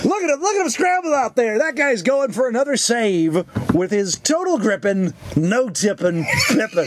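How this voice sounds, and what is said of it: Imitates another person's voice. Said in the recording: “You're doing a little bit of Bill Cosby there.”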